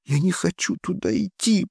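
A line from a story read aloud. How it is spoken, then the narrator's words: Moaning. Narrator (Russian): простонала мисс Орвелл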